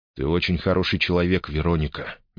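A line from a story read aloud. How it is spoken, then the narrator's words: Gentle. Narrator (Russian): мягко сказал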